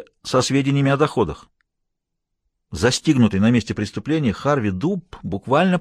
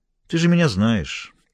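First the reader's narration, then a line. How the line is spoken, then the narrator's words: Calm repetition. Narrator (Russian): повторила Лоретта спокойно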